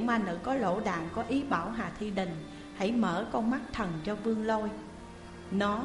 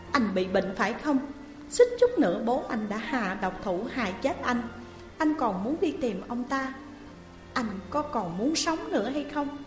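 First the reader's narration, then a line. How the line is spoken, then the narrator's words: Loud yelling. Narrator (Vietnamese): gào to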